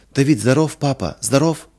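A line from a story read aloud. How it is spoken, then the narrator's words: Joyful question. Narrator (Russian): спросила Лина радостно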